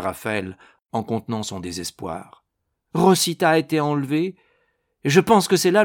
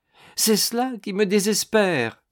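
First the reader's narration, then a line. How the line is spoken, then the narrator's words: Exclaimed. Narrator (French): s'écria-t-il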